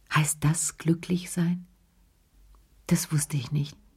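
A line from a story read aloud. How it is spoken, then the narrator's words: Very quiet. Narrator (German): sagte er ganz leise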